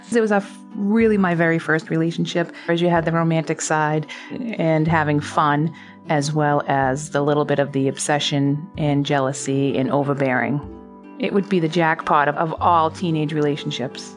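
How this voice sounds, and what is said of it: Boston accent. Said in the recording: “my bad Boston accent ... I grew up in South Boston”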